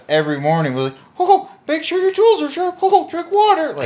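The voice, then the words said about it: Imitates a Mickey Mouse voice. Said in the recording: “talked like Mickey Mouse”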